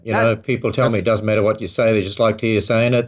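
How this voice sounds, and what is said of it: Australian accent. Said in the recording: “the Aussie accent ... just you just love your voice. Sounds good on the radio.”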